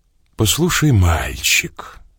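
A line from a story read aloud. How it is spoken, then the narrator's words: Almost tender. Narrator (Russian): сказал я почти ласково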